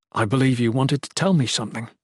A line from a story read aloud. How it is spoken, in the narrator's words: Jen said